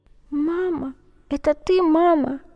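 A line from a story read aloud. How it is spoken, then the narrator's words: Soft surprised thin whisper. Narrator (Russian): тихонько прошептал удивленный тоненький голосок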